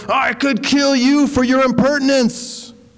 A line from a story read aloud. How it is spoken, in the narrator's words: The samurai flew into a rage and yelled